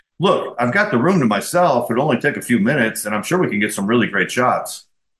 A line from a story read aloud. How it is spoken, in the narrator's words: I quickly countered with